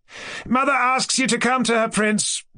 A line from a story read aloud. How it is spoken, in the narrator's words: cried Kolya